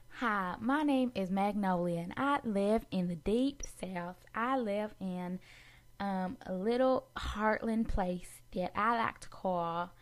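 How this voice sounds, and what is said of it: Bad put-on Southern US accent. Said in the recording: “a little southern accent. I'm not from the south, but this is my best southern accent... this is actually really bad... that was terrible”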